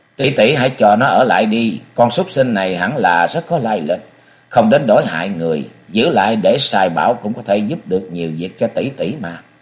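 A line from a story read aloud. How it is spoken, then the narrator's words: Laughing. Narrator (Vietnamese): Thùng Quánh bật cười nói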